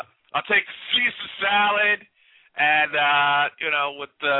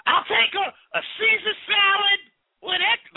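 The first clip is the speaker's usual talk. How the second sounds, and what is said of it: Put-on silly voice. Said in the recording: “Why am I doing a voice?”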